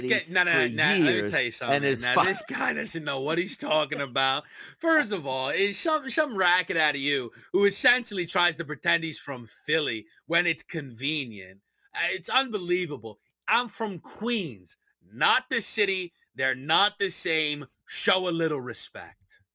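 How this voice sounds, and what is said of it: Put-on accent. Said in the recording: “Pull the accent out one final time.”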